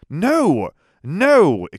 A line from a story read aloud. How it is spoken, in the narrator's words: exclaimed Jim